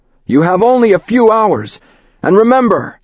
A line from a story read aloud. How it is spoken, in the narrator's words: he yelled